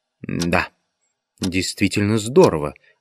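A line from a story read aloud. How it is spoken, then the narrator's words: Whispered. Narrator (Russian): шепнул один из пришедших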